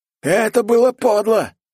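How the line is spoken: Yelling. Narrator (Russian): заорал

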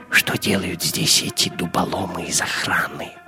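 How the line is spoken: Whisper in ear. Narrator (Russian): прошептал Гитлер на ухо своему камердинеру

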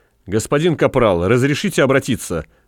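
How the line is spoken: Barked. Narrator (Russian): рявкнул он

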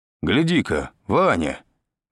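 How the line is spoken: Exclamation. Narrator (Russian): воскликнул дядя Юра

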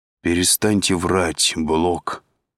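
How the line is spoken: Tired. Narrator (Russian): устало сказал Андрей

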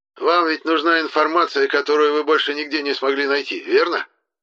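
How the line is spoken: Businesslike tone. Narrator (Russian): Уже более деловым тоном спросил Деметр

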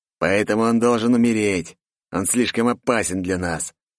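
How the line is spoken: Angry hiss. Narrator (Russian): прошипел зло Виктор

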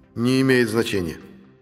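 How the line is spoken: Calm AI explanation. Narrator (Russian): все так же спокойно пояснил искусственный интеллект

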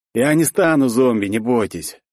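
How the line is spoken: Chilling, emotionless young man. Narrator (Russian): Бесчувственным голосом, который пробирал до дрожи, сказал подходящий к ним парень

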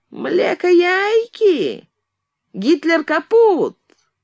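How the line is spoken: Nasty mocking thin voice. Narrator (Russian): произнес противным, оскорбительно тоненьким голосом

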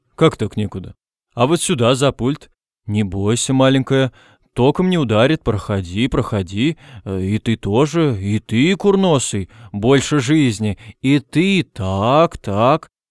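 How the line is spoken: Deep booming voice. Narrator (Russian): И густой голос Перси Диксона прогудел

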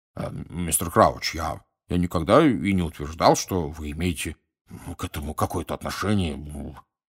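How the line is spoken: Embarrassed mumble. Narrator (Russian): пробормотал Амос Дигори пунцово краснея

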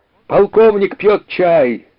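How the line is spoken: Shouting into silence. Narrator (Russian): заорал Даган в наступившей тишине

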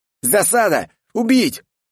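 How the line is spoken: Shouting from both sides. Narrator (Russian): кричали обе стороны

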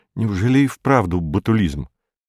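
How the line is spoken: Frightened question. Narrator (Russian): Феликс испуганно спрашивает его

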